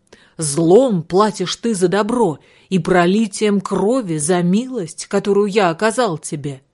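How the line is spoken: Startled shout. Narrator (Russian): купец … крикнул молодому рыбаку

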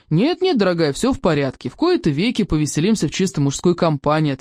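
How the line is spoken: Plain. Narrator (Russian): ответил

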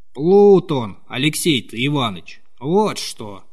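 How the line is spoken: Old man's dry voice. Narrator (Russian): повторял старик каким-то сухим голосом

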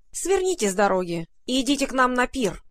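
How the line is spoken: Stern nasty voice, fat rodent. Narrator (Russian): строго сказал противным голосом самый толстый грызун

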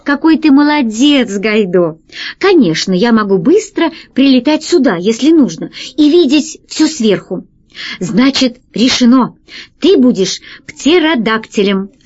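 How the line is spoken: Plain. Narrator (Russian): сказал Пашка

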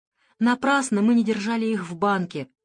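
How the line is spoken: Sighing mother. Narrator (Russian): вздохнула мама

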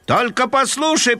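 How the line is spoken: Proud booming. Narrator (Russian): прогудел с гордостью Фредди

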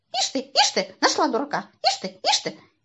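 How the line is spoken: Distrustful squeak. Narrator (Russian): Сидор недоверчиво пропищал

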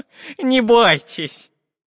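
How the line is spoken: Cheerful laughter. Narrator (Russian): Весело засмеялся профессор Пыхтелкин

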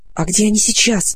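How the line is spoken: Whispered question. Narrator (Russian): спросила Полина шепотом

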